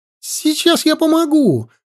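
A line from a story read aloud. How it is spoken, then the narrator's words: Shout. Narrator (Russian): крикнул Метта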